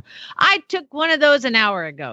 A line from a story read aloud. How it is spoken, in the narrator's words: said loudly